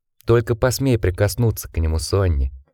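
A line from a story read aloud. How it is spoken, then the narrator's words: Soft. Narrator (Russian): мягко произнес Джек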